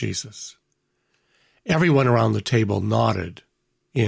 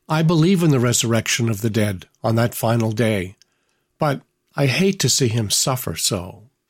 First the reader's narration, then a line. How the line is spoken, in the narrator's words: Mary sighed and stated